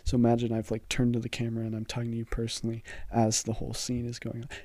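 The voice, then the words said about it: Whispered aside. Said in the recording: “When I'm whispering, it's an aside.”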